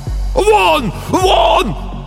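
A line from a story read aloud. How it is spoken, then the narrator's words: Shouting. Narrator (Russian): кричал писатель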